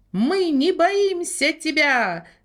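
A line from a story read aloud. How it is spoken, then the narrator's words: Shouting. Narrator (Russian): закричал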